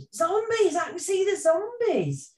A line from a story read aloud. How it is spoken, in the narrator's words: somebody shouted